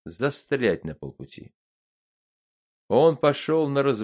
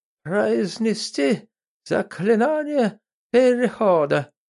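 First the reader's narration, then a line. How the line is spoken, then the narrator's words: Hoarse rasp. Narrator (Russian): прохрипел эсэсовский эзотерик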